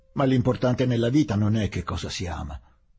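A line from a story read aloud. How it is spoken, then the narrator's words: Peremptory, almost brusque retort. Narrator (Italian): ribatté Charlus, con tono competente, perentorio e quasi brusco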